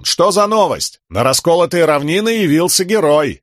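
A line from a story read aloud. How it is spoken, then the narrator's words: Joyful yell. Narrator (Russian): радостно заорал солдат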